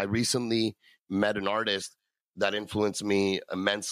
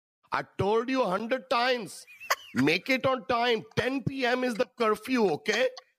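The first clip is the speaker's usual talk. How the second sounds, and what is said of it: Impersonation of a Desi uncle. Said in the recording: “your best impersonation of a Daisy uncle”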